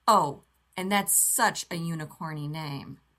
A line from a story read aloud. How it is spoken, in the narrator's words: John the Rainbow pronounces, sarcastically